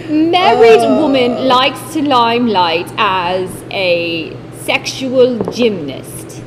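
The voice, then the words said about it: Put-on British accent. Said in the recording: “I'm doing it in a British accent.”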